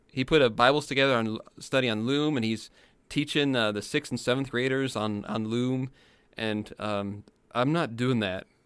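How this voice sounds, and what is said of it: Tired, worn-out voice. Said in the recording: “my voice is exhausted”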